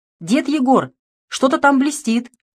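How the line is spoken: Shout. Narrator (Russian): крикнула

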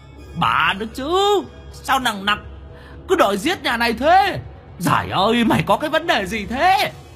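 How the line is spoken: Demon howling. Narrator (Vietnamese): Quỷ mõm gào lên

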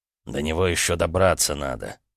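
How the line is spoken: Grumble. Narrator (Russian): буркнул Дайнис

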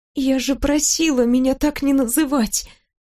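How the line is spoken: Quiet. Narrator (Russian): Тихо отвечаю

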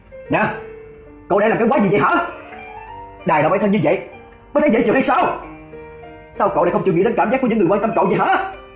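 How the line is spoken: Sudden angry shout. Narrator (Vietnamese): Đầu Đen đột nhiên là tức giận vô cớ mà quát nó

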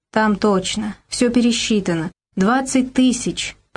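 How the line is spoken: Muttered. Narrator (Russian): пробормотал Игорь Васильевич

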